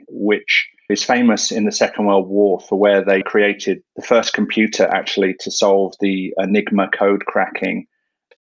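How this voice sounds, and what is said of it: English accent. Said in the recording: “the funny accent you're hearing is English”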